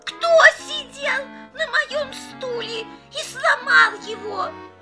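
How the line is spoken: Squeaky child voice. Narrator (Russian): Мишутка пропищал

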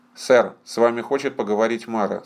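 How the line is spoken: Plain. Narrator (Russian): сказал Хэм

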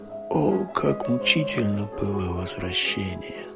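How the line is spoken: Whispered. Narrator (Russian): прошептал он

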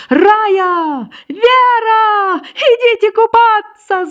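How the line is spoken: Ringing shout. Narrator (Russian): звонко крикнула Женька

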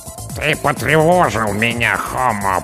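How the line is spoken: Creaking, grating voice. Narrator (Russian): проскрипела командная голова

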